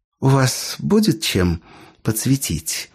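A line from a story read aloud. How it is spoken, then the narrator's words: Soft, smiling. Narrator (Russian): мягко улыбнулась гостья Лоренсу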